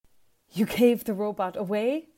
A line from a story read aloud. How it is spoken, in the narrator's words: says Javier breathlessly